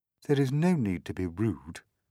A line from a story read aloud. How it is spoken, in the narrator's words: she said coldly